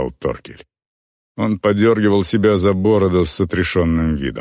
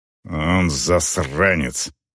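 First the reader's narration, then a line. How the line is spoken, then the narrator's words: Growling female orc. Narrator (Russian): прорычала орка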